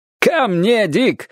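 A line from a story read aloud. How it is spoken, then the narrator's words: Joyful shout. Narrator (Russian): радостно крикнул охотник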